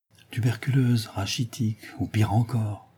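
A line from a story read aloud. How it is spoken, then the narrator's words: Murmured. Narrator (French): murmura Mademoiselle Renée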